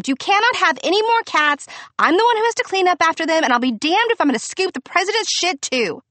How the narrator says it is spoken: Victor may have screamed

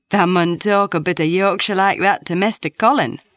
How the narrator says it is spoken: Dickon chuckled

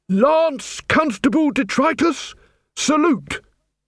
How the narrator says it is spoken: bellowed

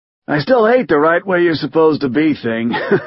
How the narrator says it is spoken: says, laughing

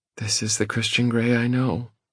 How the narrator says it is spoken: she says, and her tone is almost wistful

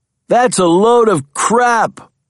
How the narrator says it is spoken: bellowed a voice

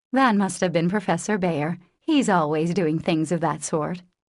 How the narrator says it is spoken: she laughed and said

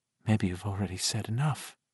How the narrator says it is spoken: she whispered

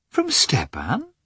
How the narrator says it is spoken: asked Dolly in a surprised tone

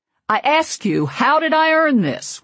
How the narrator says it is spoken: roar through the closed door

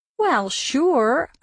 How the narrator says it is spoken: I said sarcastically

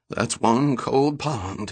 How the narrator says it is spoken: he muttered

